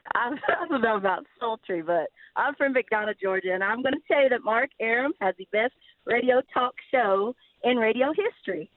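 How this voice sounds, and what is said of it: Sharp Southern American accent. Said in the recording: “let's hear your sultry Southern drawl ... that's an interesting accent ... There's definitely Southern there, but it's a sharper Southern”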